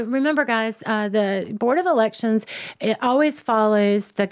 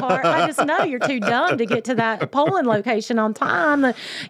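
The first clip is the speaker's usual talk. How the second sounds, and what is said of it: Exaggerated put-on Southern accent. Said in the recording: “And especially with that accent ... my Southern accent, when I kick it up”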